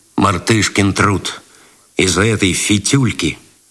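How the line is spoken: Displeased tone. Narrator (Russian): Свиридов недовольным тоном сказал

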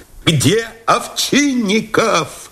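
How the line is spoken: Shouting. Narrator (Russian): закричал Новиков

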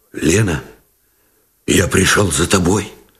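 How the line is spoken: Muffled, hoarse. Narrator (Russian): глухо и хрипло выговорил Новиков

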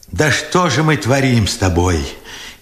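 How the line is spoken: Furious, tearful question. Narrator (Russian): яростно сквозь слезы спрашивал Бережной

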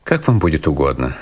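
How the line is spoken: Dry. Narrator (Russian): сухо сказал я

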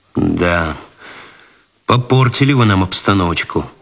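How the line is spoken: Sighing. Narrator (Russian): вздохнул Цветков

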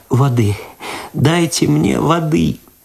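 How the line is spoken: Loud sobbing, moaning. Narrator (Russian): В голос зарыдала Люда, простонала

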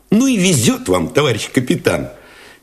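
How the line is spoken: Cheerful admiring exclamation. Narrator (Russian): весело, даже восхищенно воскликнул Алешин

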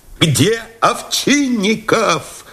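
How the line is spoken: Shout. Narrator (Russian): закричал Новиков

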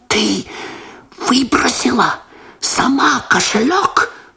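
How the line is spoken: Shocked whisper. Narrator (Russian): прошептал Лосар, меняясь в лице

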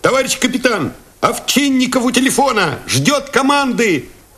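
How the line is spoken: Shouted. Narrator (Russian): крикнул кто-то

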